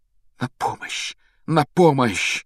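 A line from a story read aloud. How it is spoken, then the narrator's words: Passionate whisper. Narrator (Russian): страстно шептал Гарри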